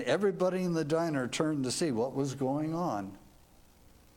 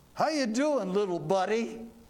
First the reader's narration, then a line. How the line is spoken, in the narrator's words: He said to the little boy loudly